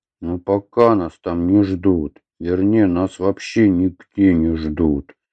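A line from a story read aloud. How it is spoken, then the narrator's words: Muffled, sullen. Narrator (Russian): глухо отозвался Атхи, насупливаясь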